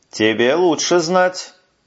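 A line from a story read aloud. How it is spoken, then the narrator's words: Gloomy reply. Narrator (Russian): мрачно ... отвечает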